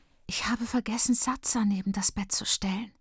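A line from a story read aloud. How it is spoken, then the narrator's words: Whispered. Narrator (German): flüstert Freedom, die als Jüngste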